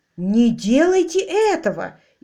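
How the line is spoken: Frightened exclamation. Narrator (Russian): испуганно воскликнул хозяин, Док Медли

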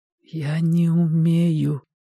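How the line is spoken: Whisper. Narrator (Russian): прошептал Костя

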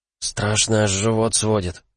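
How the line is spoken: Fearful whisper. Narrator (Russian): прошептал Пайрус, опасливо оглядывая пустынный вестибюль

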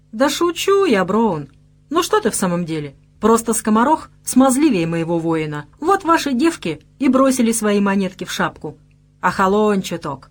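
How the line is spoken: Cheerful. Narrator (Russian): продолжил весело

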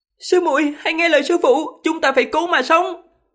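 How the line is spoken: Shouting through clenched teeth. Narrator (Vietnamese): Văn Mẫn cắn chặt răng, thét to

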